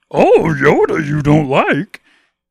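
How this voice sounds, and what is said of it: Not-great Yoda character voice. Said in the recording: “I don't do a great Yoda impression”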